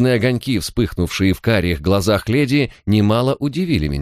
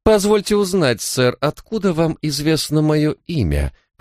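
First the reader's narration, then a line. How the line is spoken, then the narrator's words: Through clenched teeth. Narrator (Russian): процедила она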